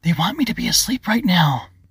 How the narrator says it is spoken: Ava frowned, then whispered loudly

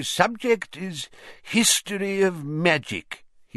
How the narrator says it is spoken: he said in his dry, wheezy voice

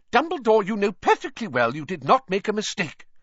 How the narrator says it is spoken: said Professor McGonagall angrily

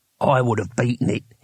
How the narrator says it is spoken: he said quietly

